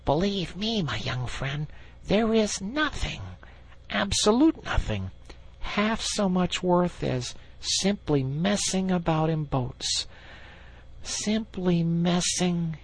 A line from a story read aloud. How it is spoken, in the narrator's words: he went on dreamily